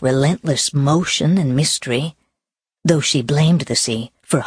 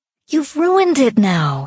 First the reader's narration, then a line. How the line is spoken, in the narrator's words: she said, looking sadly